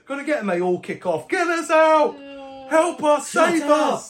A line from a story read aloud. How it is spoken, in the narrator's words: Do you shout